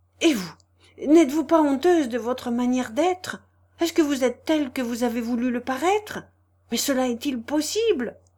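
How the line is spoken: Abrupt exclamation. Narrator (French): s'écria brusquement

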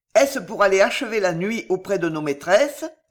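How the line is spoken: Plain. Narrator (French): dit le troisième

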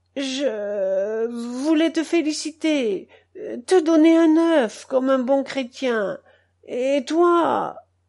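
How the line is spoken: Drunkard's moan. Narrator (French): gémit l'ivrogne

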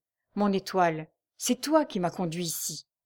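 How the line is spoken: Murmured. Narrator (French): murmura-t-il

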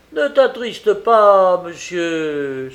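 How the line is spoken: Exclaiming man. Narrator (French): s'écria-t-il ensuite

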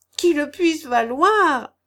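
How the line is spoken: Widow exclaiming. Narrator (French): s'écria la veuve

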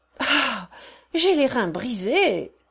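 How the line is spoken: Exclaimed. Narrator (French): s'écria ce dernier

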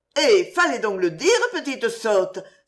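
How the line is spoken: Joyful exclamation. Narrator (French): s'écria joyeusement la mère

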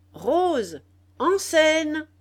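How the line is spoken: Shouting. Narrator (French): cria Bordenave

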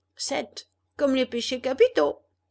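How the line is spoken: Laughing. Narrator (French): dit Pinocchio en riant

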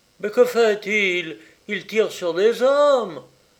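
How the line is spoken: Crowd exclaiming. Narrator (French): s'écria la foule

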